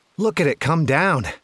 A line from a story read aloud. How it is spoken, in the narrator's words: Axel exclaimed